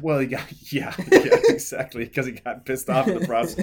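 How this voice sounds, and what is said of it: Usual voice. Nothing is said of it.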